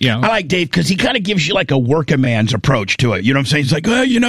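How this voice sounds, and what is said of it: Usual voice. Nothing is said of it.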